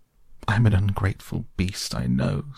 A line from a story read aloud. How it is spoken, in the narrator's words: sobbed the Toad, shedding bitter tears